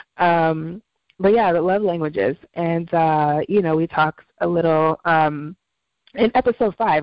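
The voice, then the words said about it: Voice affected by a cold. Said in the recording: “I'm getting over. It. I had like a four day cold ... my voice is obnoxious, more obnoxious”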